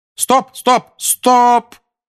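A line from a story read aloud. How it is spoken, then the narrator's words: Shout. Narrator (Russian): крикнула Анжелина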